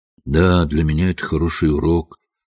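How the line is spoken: Glum remark. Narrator (Russian): уныло заметил Хедерли

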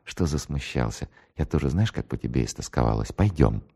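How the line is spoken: Happy whisper. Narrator (Russian): Улыбнулась счастливой улыбкой и прошептала

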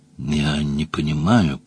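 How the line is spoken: Mumbling. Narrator (Russian): промямлил Джон Том

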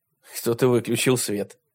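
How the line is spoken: Snorting. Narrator (Russian): хмыкнул Майк

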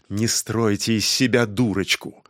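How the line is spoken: Grumbled. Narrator (Russian): проворчал Старкведдер

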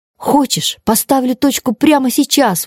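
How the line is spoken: Exclaimed. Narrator (Russian): воскликнула она

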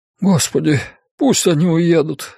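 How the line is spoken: Pleading. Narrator (Russian): взмолился он

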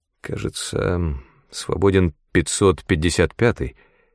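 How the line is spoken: Uncertain. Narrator (Russian): неуверенно сказал Питер

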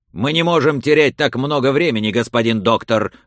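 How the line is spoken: Rude shout. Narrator (Russian): грубо крикнул ему барон

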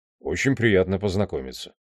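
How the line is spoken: Indifferent tone. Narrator (Russian): безразличным тоном сказал Хнат

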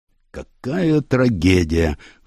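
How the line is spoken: Sighing. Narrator (Russian): вздохнул следователь

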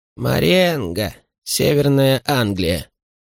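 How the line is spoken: Gloomy, pessimistic. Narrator (Russian): на него накатило какое-то полное пессимизма откровение, и он мрачно произнес

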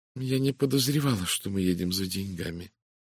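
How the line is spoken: Quiet woman's remark. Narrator (Russian): тихо заметила женщина

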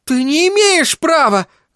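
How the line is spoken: Shouting woman. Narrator (Russian): закричала она

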